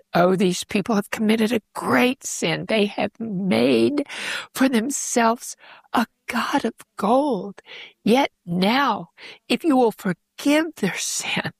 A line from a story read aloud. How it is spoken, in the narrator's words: he's pleading